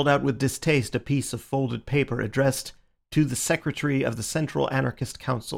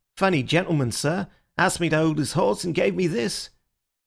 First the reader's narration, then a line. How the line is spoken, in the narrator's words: he added in an injured voice